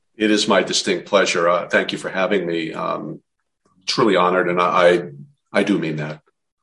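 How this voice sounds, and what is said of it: New Jersey accent. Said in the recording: “the Jersey accent ... I can't compete with the Jersey accent.”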